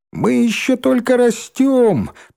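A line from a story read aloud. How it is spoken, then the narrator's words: Squeaky interjection. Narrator (Russian): писклявым голоском вставил Рыжий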